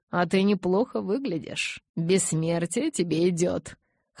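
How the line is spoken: Chuckling. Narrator (Russian): хохотнул он

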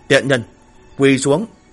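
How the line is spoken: Furious shout. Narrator (Vietnamese): phẫn nộ quát

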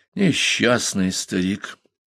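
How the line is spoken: Sighing. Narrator (Russian): вздохнул Персел

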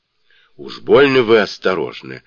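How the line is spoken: Exclaiming. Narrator (Russian): воскликнула вдова

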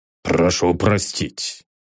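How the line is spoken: Mumbled apology. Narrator (Russian): пробормотал пристав

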